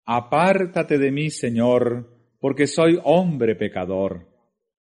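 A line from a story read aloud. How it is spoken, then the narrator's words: Exclaimed. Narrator (Spanish): Pedro exclamó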